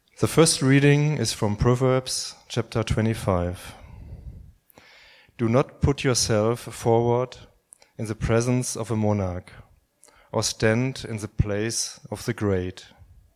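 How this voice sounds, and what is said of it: Speaks with a noticeable accent. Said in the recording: “Please excuse my horrible accent.”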